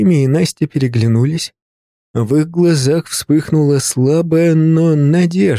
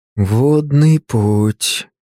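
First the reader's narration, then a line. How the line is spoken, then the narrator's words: Drawled. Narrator (Russian): протянул Артемий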